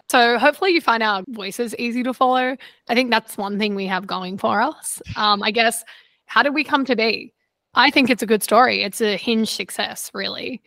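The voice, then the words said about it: Australian accent. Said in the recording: “the voice with the accent that is Australian belongs to ... That's me.”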